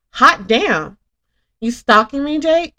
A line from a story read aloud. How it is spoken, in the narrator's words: gave a flirty giggle and exclaimed